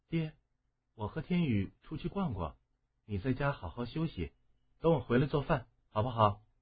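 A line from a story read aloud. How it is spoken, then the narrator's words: Soft. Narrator (Chinese): 婴儿轻声的说道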